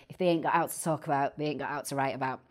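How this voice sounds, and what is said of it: Put-on Manchester Salford accent. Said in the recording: “in my best Manchester accent or Salfordian accent, should I say ... That's my best accent coming out there.”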